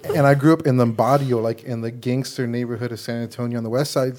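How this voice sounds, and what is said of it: Mexican-American English accent. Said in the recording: “I don't know if you can tell from my voice, but I am Mexican-American.”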